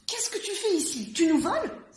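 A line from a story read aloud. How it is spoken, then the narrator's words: Exclaimed. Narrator (French): s'écrie-t-elle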